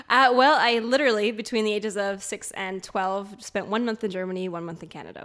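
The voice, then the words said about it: Half Canadian, half German accent. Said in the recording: “You've obviously got an accent ... I'm half Canadian, that's why I sound like this ... And half German.”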